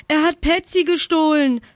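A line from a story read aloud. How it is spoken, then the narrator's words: Screamed. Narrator (German): schrie Jana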